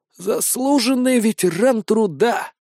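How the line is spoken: Hoarse wheeze. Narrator (Russian): прохрипела та

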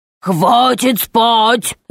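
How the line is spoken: Thunderous echoing roar. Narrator (Russian): зарычал тролль так громко, что голос его, усиленный эхом, разнесся на километры

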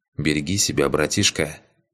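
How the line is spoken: Sad, smiling. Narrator (Russian): Крина грустно улыбнулась

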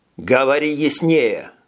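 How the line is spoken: Stern command. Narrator (Russian): строго приказал Тони

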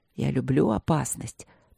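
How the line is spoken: Whisper in the ear. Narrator (Russian): прошептал Люк мне на ухо

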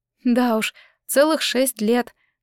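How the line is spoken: Trembling voice. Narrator (Russian): дрожащим голосом ответила

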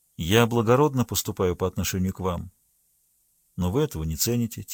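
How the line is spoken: Quiet. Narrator (Russian): тихо произнес

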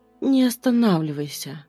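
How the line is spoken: Hoarse breathy exhale. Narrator (Russian): Выдыхаю осипшим голосом

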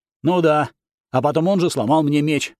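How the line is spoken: Snorting sword. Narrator (Russian): хмыкнул сломанный меч

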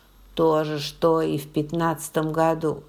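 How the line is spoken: Calm. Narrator (Russian): спокойно ответил отец

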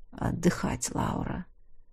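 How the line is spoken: Hoarse. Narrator (Russian): хрипло произнес Торн

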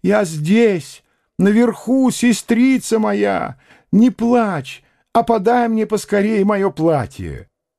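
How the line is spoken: Loud shouting woman. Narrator (Russian): дама закричала, как могла, громче

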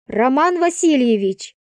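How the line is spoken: Shouting into phone. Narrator (Russian): крикнула в трубку

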